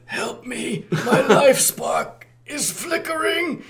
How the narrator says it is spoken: Megatron in voiceover, weakly shouting over the din

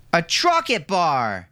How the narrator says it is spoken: shouted Milo, who was now standing up on the bed

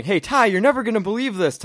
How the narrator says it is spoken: telling him all excitedly

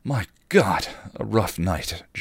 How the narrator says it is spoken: Giles gasped

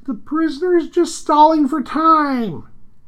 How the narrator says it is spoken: the executioner cries

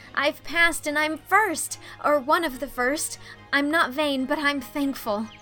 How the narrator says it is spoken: exclaimed Anne

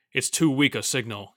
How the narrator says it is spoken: he growled

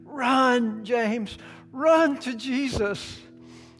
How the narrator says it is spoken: she cried out with all of her energy

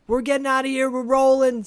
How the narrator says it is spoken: He yells over to Benny

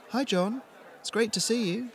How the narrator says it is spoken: said, smiling warmly

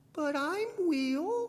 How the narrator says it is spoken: Cindy Lou Hope said nervously

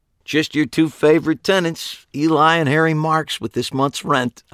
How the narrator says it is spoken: I said cheerfully

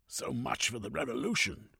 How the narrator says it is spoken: growled

